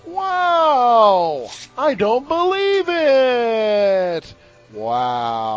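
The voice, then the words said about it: Sarcastic exaggerated delivery. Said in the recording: “being sarcastic”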